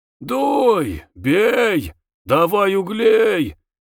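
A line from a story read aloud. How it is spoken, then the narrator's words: Hoarse shouting. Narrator (Russian): сипло кричал он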